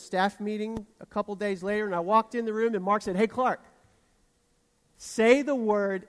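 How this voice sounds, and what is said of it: Southern American accent. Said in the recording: “my accent betrayed how southern I am”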